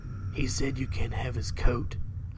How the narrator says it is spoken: I whisper

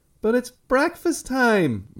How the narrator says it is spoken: Margaret whined

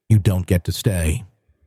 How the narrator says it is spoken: she said evenly

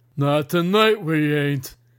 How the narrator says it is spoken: bellowed Hattery

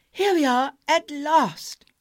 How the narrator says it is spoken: exclaimed Dick, who was the first to catch sight of the sea

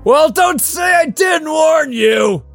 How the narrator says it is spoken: yelled Trevor, his face flushed

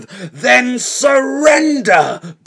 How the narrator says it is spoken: boomed the box

